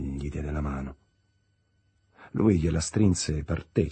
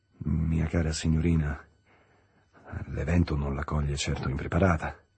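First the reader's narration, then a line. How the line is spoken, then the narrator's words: Awkward murmur. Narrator (Italian): mormorò quasi impacciato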